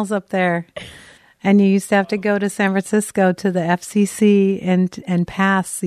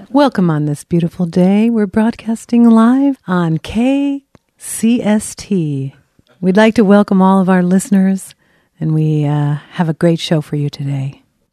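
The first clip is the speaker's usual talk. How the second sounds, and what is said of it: Smooth, soothing radio announcer voice. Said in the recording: “the radio voice? ... That was soothing.”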